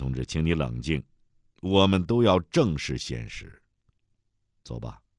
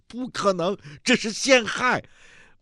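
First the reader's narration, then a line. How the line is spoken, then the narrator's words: Excited shout. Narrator (Chinese): 梅峰激动的大喊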